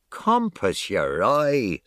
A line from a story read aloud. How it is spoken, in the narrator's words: says Alf, laughing